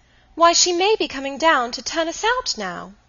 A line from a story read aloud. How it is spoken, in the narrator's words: Dolly, who had recovered, cried